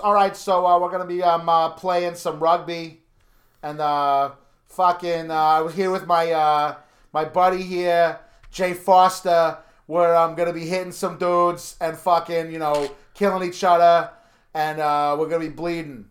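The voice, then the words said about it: Put-on Boston accent, drifting Chicago. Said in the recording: “who has a very Boston accent ... You need to work on differentiating your Boston accent from your Chicago accent.”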